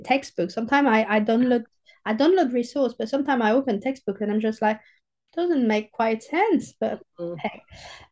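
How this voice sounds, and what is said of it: Southern French accent. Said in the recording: “I'm a proper French southerner with my accent”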